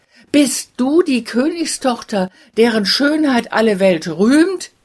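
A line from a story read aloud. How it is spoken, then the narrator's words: Exclaiming. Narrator (German): rief er aus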